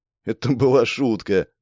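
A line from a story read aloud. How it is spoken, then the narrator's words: Laughing. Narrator (Russian): посмеялся Степан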